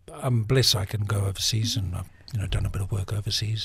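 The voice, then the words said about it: New Zealand accent. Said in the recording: “I could speak in my New Zealand accent for a change”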